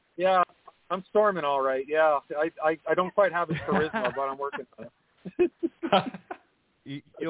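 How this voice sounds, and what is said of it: Canadian accent, like Lance Storm. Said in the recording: “are we sure this isn't Lance Storm? The Canadian accent.”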